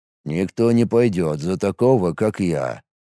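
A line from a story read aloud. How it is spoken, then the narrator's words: Gloomy pronouncement. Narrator (Russian): мрачно изрек Каналова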